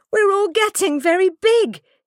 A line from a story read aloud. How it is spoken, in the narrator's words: cried